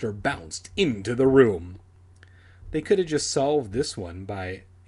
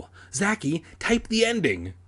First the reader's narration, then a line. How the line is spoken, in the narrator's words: screamed breathlessly